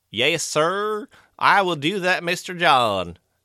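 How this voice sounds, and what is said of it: Over-the-top fake deep Southern accent. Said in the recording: “his accent was atrocious ... anyone that tries to over the top make fun of the South ... It was so over the top, like, crazy fake Southern ... Gone with the Wind ... super crazy old deep South”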